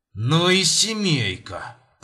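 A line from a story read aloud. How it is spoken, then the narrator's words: Through gritted teeth. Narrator (Russian): процедил тогда он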